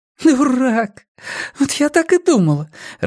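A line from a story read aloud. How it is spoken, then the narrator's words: Angry through laughter. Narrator (Russian): рассердилась сквозь смех Нина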